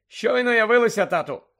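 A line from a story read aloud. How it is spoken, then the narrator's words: Loud. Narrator (Ukrainian): голосно мовив Персі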